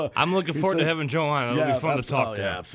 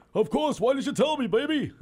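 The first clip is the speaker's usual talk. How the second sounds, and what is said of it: Big New York New Jersey accent. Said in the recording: “in his big, you know, New York, New Jersey, you know, accent.”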